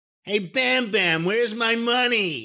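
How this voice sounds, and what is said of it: Whiny New Jersey voice impression. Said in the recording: “the most important thing would be the voice ... it was like a whiny Jersey voice ... It was like a whiny Jersey Jerry Lewis.”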